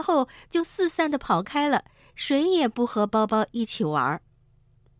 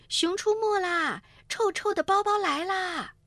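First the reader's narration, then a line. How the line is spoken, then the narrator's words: Children shouting loudly. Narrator (Chinese): 小朋友们就大声叫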